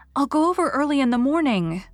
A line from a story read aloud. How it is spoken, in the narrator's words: said Anne eagerly